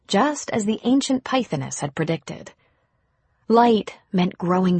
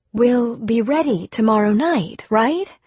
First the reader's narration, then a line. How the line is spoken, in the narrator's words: Taffy asked anxiously